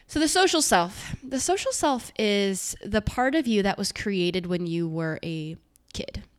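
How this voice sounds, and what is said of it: Congested voice with sniffling. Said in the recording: “I have a little bit of a cold. So if you hear me sniffling”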